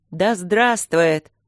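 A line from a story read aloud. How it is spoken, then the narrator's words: Roaring crowd. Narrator (Russian): проревели они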